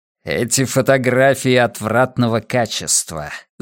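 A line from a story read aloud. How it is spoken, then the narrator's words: Hissed, hiding excitement. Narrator (Russian): зашипел он, скрывая возбуждение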